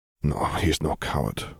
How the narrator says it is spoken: Gellert mumbled to himself

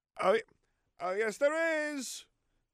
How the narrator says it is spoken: Harry's voice loudly echoed down the corridor

